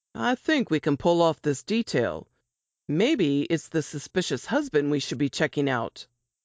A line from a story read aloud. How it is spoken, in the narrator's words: Robert said